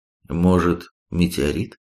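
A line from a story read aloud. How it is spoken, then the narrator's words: Uncertain. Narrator (Russian): неуверенно произнес Робин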